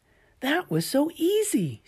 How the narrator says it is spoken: she exclaimed

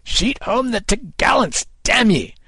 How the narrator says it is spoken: Kid cried to his men

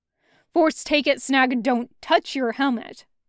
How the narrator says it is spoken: Ink snapped

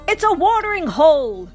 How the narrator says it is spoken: Woody shouted

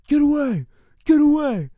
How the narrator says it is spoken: he's yelling at people

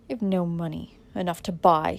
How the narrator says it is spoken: said Dick in a firm voice

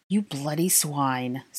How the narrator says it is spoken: spat Draco

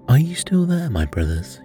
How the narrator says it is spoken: he cried

